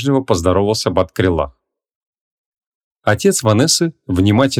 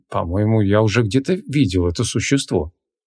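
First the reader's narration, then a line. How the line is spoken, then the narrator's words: Thoughtful mutter. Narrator (Russian): задумчиво пробормотал он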